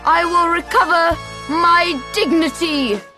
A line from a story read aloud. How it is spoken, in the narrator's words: cried